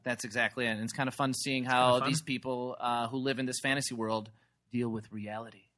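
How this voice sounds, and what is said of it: Smooth radio announcer voice. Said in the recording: “That was my radio podcast voice.”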